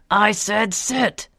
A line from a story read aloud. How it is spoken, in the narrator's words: the man continued to scream